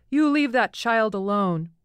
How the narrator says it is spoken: shouting

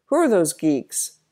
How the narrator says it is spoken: Donovan suddenly exclaimed

